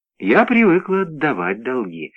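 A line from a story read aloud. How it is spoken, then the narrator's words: Plain. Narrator (Russian): сказала она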